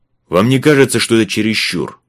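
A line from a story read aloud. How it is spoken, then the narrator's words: Barking. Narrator (Russian): рявкнул он на Элли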